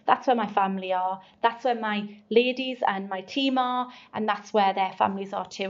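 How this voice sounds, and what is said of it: Geordie (Northeast English) accent. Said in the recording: “I was known as ... I'm proud to be from the northeast. I've never tried to change my accent.”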